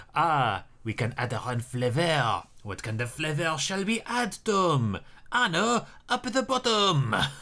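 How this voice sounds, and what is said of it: Put-on French accent. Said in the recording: “I just wanted to do the accent. ... You just wanted to do a French accent”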